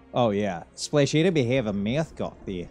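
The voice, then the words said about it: Good put-on Australian accent. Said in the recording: “I can do Aussie really well. ... See, that's really good.”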